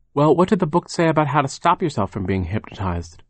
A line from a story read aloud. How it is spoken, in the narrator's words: Violet asked